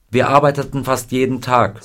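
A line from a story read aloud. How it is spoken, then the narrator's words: Plain. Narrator (German): sagte Scotty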